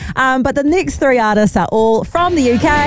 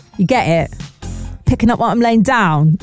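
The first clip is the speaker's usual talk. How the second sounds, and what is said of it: Poor put-on London accent. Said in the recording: “I don't know where in London that accent is from ... It needs work. It needs a lot of work, that accent.”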